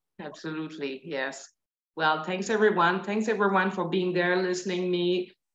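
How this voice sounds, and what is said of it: French Canadian accent. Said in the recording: “my accent. I have the accent of Georges St-Pierre”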